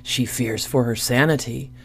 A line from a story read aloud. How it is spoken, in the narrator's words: whispered Scambles, the briar goblin